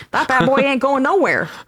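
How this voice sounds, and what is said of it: Attempted New York accent. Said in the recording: “I don't know how to do a New York accent.”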